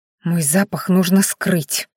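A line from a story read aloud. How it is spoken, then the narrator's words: Through gritted teeth. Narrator (Russian): сквозь зубы процедила Маяри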